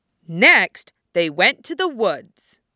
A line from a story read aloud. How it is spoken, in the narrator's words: said firmly